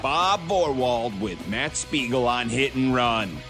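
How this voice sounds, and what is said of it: Giant booming announcer voice. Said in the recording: “is doing his impression of Russ Matera, our usual production guy. Giant voice, giant voice.”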